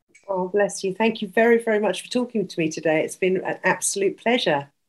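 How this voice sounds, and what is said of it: British accent. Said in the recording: “Love your accent... I love the UK”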